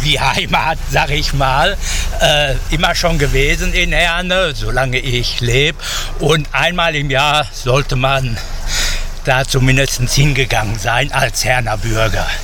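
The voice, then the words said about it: Ruhr region German dialect. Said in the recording (German): “Dialekt so schön... Ruhrpott-Dialekt”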